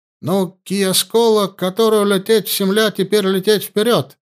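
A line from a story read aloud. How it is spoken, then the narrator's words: Joyful exclamation. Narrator (Russian): обрадованно воскликнул Курт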